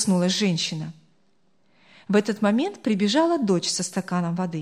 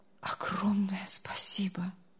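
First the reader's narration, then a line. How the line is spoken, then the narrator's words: Barely audible. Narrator (Russian): Едва слышно проговорил он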